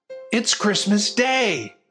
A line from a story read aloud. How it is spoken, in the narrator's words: a familiar voice yelled